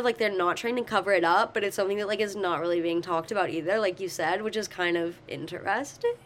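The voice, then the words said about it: Failing voice that trails off. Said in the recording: “losing my voice because my little cold ... I said interesting, and it kind of just trailed off because my voice”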